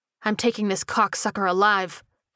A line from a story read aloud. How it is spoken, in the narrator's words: snarled